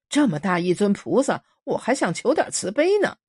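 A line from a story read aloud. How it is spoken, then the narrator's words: Amused. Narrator (Chinese): 新武倒好笑说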